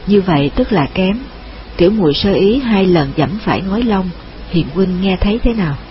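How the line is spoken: Smiling. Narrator (Vietnamese): Nàng mỉm cười

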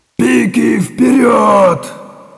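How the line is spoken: Yelling. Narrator (Russian): заорал Чистоплюй

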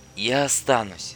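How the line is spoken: Quiet. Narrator (Russian): тихо сказала Ольга

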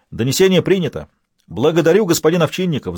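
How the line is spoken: Yelling. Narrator (Russian): заорал Лабрюер

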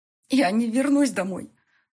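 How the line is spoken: Forced out through sobs. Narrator (Russian): Сквозь всхлипы выдавила

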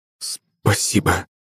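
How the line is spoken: Mutter. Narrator (Russian): пробормотал он

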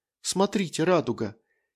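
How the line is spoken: Quiet girl's voice. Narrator (Russian): негромко сказала девушка

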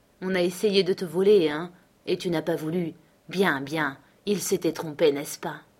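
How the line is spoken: Sneering laugh. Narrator (French): ricana Matt

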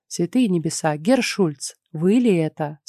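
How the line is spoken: Plain. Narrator (Russian): спросила матушка

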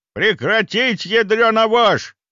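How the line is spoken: Roaring in face. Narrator (Russian): взревел он ей в лицо

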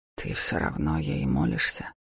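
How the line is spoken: Quiet question. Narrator (Russian): тихо спросил Даур

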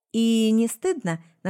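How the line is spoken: Mocking question. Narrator (Russian): насмешливо спросила я

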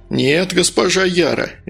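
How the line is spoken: Cheerful. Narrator (Russian): весело ответил Медовар

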